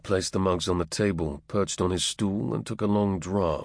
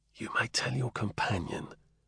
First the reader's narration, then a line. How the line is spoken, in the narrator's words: Will spoke almost in a whisper